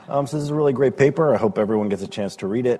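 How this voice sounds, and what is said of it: Unwell, rough-sounding voice. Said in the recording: “Hope you'll excuse my voice. I'm a little under the weather”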